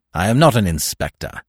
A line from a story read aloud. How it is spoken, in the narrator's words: snapped Smith